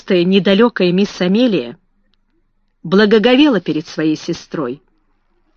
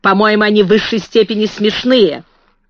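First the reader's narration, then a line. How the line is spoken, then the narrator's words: Sharp reply. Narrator (Russian): резко ответила мисс Минчин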